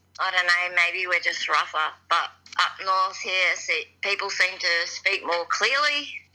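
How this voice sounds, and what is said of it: Australian accent. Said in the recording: “I know your accent ... Australian accents ... apparently I'm harder to understand than a lot of other people”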